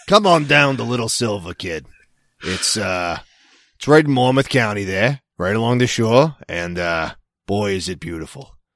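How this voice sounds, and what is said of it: Boston accent. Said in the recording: “my Boston accent hasn't freaking left”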